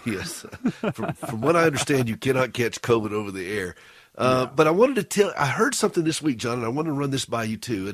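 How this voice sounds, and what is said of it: Congested, hoarse sick-sounding voice. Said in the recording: “I do apologize for my voice. I've gotten a bad cold”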